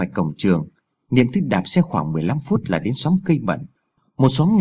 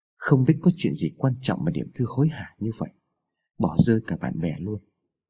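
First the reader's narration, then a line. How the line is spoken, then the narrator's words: Boy muttering to himself. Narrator (Vietnamese): thằng bé lẩm bẩm nói một mình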